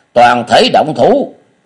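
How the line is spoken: Loud shout. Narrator (Vietnamese): Dương Thanh ... đồng thời quát to

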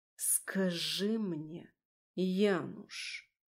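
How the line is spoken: Slow, deliberate speech. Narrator (Russian): медленно и раздельно проговорила

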